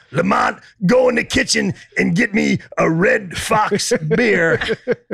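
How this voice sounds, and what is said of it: Redd Foxx impression. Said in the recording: “my Red Fox impression”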